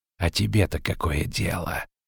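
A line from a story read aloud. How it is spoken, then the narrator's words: Hissing. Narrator (Russian): прошипел черный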